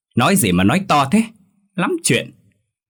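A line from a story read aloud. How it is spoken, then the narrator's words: Angry shout. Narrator (Vietnamese): Bà ta quát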